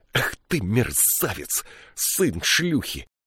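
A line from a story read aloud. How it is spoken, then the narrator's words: Hissing. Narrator (Russian): прошипела она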